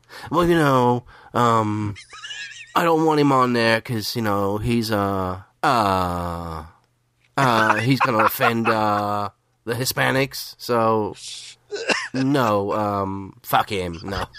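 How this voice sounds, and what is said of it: Impression of Lewis. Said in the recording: “do my best Lewis impression”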